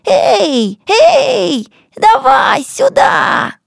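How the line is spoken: Shouted. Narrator (Russian): Мурат Бобо и крикнул

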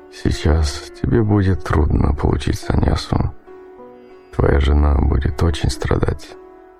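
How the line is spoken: Quiet. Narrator (Russian): Он тихо сказал ему

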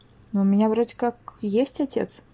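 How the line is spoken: Mutter. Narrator (Russian): пробормотал

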